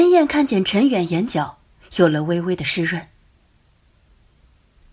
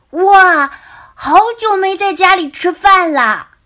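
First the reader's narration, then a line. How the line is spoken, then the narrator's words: Excited shout. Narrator (Chinese): 大宝兴奋的大叫说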